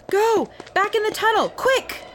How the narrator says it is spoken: a girl came running at us yelling

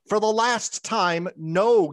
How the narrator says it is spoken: Galyak yelled

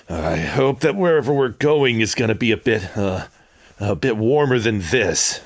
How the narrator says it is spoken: Tran just sort of mutters a bit

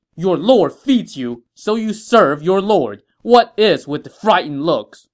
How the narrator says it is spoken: Xu Sheng shouted

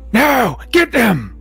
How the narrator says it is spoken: this figure in the distance yell out

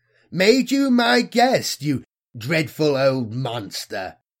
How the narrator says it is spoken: Belathonius cackled with radiant self-satisfaction

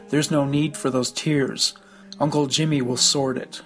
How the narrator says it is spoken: Saville spoke kindly to her, saying

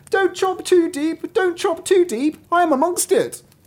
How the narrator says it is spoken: the butcher cried out with all his might

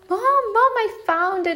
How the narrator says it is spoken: exclaimed Flora

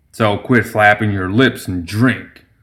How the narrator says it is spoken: grunted Summer

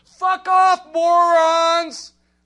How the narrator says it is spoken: someone drives by and screams

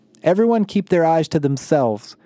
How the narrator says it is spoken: Emma yelled

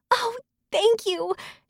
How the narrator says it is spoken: she breathed excitedly

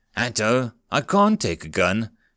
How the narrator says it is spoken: she whispered, wide-eyed

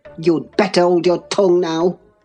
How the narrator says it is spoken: he answered fiercely

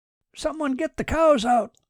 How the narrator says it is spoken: shouted Red Colliff

